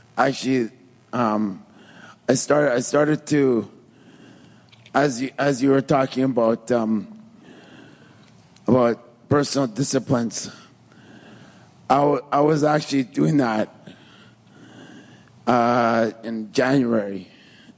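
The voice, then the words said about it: Troubled, strained voice. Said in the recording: “my voice is sort of giving me problems here”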